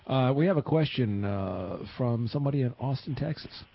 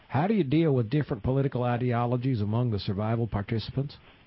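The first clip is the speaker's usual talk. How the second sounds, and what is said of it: Put-on Texas accent. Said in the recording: “let me see if I can do this with a Texas accent.”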